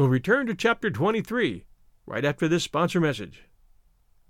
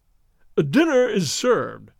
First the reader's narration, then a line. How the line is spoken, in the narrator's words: announced